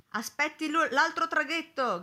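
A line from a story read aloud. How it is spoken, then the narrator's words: Sailor's shout. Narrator (Italian): gridò un marinaio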